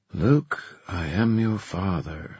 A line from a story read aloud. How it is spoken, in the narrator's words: she muttered